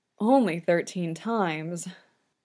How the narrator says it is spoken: Victor mutters, head dropping

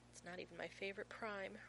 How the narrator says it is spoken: Rodney says sadly, as though actively mourning 5,573

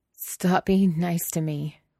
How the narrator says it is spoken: Wei Wuxian whined

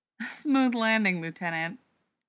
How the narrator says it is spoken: Cadman laughed

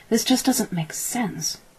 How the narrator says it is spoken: said under his breath

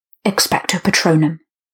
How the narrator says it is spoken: came a rasp from beside and slightly behind him

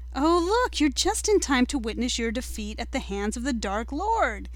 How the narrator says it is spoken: Malfoy said brightly

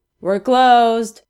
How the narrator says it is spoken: Crowley yells through the blinds

